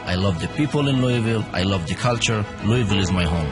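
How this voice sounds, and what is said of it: Foreign accent, not Southern-sounding. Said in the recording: “My accent may be sound different ... He may not sound like a Southerner”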